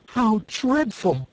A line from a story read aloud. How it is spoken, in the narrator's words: cried Dorothy